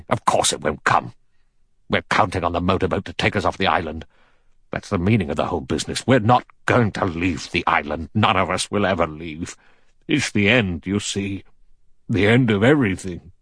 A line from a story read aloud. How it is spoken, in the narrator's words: General MacArthur said sharply